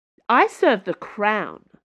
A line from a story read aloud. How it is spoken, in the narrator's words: she snapped